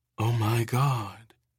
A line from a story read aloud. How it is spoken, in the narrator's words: Aaron said softly